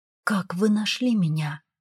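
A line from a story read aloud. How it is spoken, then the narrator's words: Barely audible. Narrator (Russian): еле слышно выговорила я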